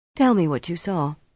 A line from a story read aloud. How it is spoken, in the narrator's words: commanded in a calmer tone